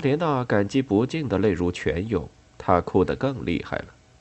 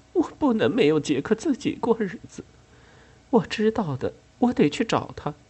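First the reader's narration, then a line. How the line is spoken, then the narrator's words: Sobbing. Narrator (Chinese): 阿莲娜哭得更厉害了，她抽噎着说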